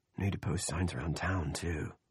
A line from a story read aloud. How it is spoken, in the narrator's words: he murmured